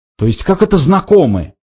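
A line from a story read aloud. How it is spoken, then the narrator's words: Indignant mimicking. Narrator (Russian): возмущенно передразнил Форд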